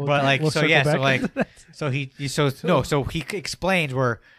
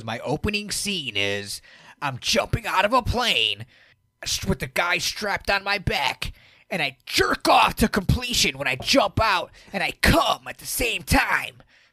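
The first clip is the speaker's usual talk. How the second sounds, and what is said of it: Imitates another person's voice. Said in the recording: “that's Steve-O impersonation.”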